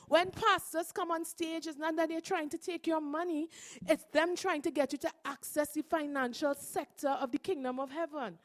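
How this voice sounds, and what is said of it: Non-American accent. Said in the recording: “I'm not American because my accent isn't American”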